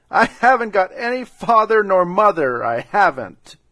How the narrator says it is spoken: Manabujo started off again with his doleful hubbub, but succeeded in jerking out between his big sobs

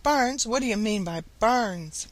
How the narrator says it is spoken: Old Mother Nature laughed

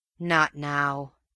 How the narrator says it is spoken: came with a grateful sort of sigh

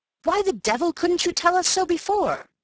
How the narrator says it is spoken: he cried

